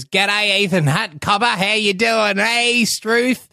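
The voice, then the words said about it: Exaggerated bad Australian accent. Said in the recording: “an Australian accent that isn't like... it's like the worst”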